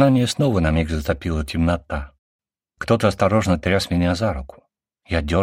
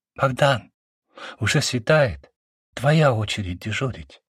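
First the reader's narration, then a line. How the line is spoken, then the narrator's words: Whispered. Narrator (Russian): сказала Натаха шепотом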